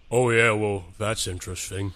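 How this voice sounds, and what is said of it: Character voice. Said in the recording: “your character voice”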